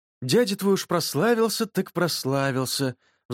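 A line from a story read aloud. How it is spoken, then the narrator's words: Reproachful sigh, mother. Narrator (Russian): вздохнула мама, укоризненно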